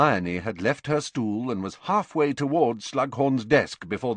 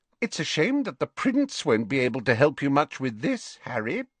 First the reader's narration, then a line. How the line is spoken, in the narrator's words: said brightly